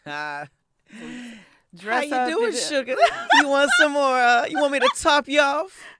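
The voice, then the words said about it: Put-on Southern waitress accent. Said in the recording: “It's a Southern waitress. Yes, it's a Southern waitress... You do an accent and everything?”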